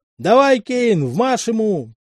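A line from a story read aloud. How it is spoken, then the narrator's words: Cheerful shout over voices. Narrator (Russian): перекрывая их голоса, весело заорал Янок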